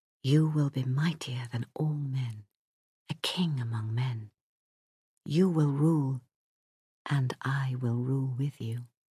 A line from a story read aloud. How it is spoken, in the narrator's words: Softly she whispered